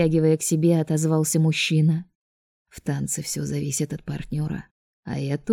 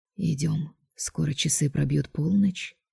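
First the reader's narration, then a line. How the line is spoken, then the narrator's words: Whisper. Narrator (Russian): шепнул Драгон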